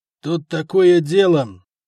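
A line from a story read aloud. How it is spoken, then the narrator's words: Through gritted teeth. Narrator (Russian): сквозь зубы сказал Буревой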